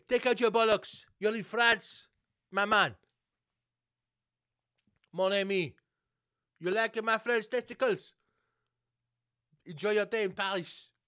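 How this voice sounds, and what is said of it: Exaggerated put-on French accent. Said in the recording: “I don't know what accent it is, but it's a fucking bang on French accent.”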